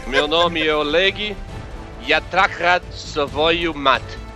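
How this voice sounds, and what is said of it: Put-on foreign accent. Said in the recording (Portuguese): “eu esqueci que você fazia sotaque ... Com a minha pronúncia vai ficar difícil”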